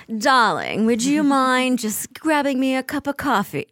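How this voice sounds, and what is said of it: Poor clipped mid-Atlantic British accent. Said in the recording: “a little more British. And if you're British, try to speak a little more American... the clipped sort of... You clip so, your consonants a bit more... I'm so bad at accents... I am comically bad at accents.”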